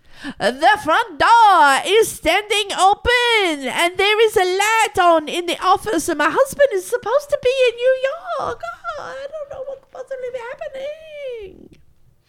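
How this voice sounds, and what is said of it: Fake French accent. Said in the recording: “using a fake French accent for no reason whatsoever”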